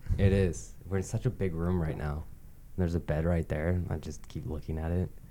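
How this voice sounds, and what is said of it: Speaking very softly. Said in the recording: “I'm talking so softly.”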